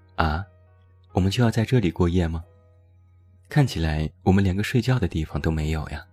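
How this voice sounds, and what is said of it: Soft, quiet disappointed muttering. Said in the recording (Chinese): “狗子有些失望，轻声说 ... 狗子正在小声的嘀咕”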